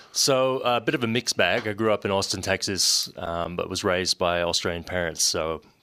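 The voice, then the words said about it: Interesting mixed accent. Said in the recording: “ooh, that's an interesting accent.”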